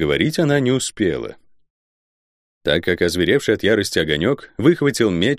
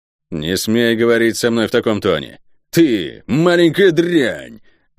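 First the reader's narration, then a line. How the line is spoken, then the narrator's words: Growling angrily. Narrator (Russian): зарычал Рован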